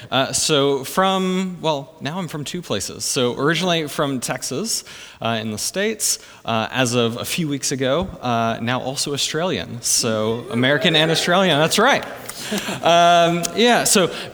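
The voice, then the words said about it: Non-Australian, American accent. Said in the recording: “your accent doesn't sound very Australian.”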